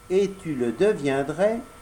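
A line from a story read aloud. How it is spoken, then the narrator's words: Plain. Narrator (French): dit la fée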